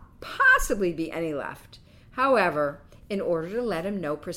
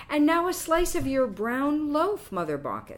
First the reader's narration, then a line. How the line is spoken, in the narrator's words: said Quicksilver